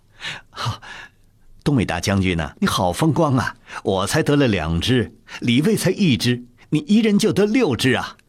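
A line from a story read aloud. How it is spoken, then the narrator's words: Laughing. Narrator (Chinese): 弘历又笑道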